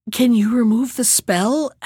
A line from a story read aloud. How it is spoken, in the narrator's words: asked the Sultan anxiously